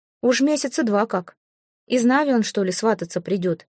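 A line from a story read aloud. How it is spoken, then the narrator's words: Worried snort. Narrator (Russian): с беспокойством хмыкнул Радим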